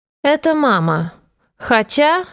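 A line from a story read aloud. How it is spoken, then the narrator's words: Sarcastic. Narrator (Russian): голос зазвучал язвительно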